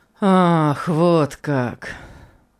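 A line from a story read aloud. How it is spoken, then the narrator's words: Sighing. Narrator (Russian): Он вздохнул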